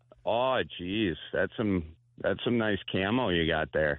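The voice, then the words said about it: Gay guy from Wisconsin voice. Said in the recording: “do an impression of a gay guy ... A gay guy from Wisconsin.”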